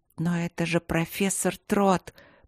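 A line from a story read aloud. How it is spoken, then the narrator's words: Frightened mumble. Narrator (Russian): Пробормотала она испуганно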